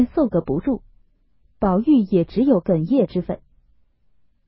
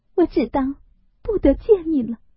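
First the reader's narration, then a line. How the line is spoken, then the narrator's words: Choked, sobbing, broken words. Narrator (Chinese): 又惊又喜，又悲又痛 哽咽了半日，方说出半句话来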